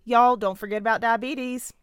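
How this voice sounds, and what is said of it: Put-on Southern accent. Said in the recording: “I know that wasn't a Colorado accent because I'm Southern and that's the only accent I can do”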